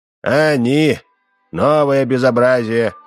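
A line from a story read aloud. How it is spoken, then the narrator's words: Sighing. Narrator (Russian): вздохнул Удалов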